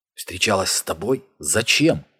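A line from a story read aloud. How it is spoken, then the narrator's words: Forced out. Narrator (Russian): выдавил Ник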